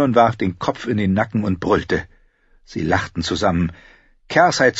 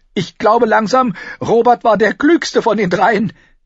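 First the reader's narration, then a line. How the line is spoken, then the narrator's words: Panting. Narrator (German): keuchte sie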